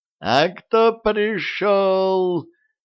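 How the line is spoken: Shouting in unison. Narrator (Russian): завопили они в один голос

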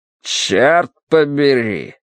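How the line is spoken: Grumbling. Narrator (Russian): проворчал Смайт

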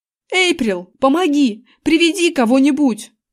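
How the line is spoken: Shouted. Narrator (Russian): закричал я

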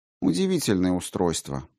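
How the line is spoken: Sighing. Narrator (Russian): вздохнул Грошев

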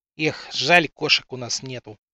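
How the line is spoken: Vexed sigh. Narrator (Russian): С досадой в голосе вздохнул Калин

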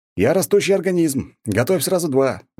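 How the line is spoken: Shouted. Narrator (Russian): выкрикнул я

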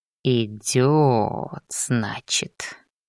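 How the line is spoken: Drawling. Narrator (Russian): протянул он

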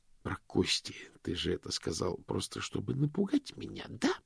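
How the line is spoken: Hissing. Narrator (Russian): прошипел мокрец

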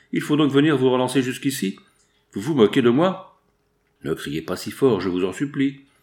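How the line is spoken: Newcomer's brutal tone. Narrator (French): fit le nouveau venu d'un ton brutal

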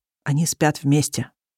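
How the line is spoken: Quiet prompt. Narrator (Russian): тихо подсказывает ему фотограф

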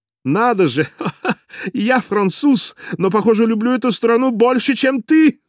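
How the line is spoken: Laughing. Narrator (Russian): засмеялся Поль

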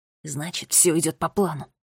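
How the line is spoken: Whispered. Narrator (Russian): прошептал Финн

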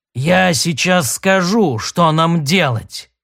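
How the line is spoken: Words through gritted teeth. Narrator (Russian): процедил он

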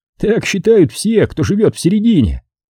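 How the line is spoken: Laughing. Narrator (Russian): рассмеялся Питер

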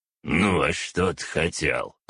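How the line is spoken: Grumbling. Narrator (Russian): проворчал Архас

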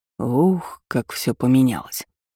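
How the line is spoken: Quiet whisper. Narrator (Russian): тихо прошептал Калеб

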